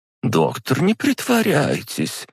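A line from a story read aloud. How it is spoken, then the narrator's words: Sighing. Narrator (Russian): вздохнула та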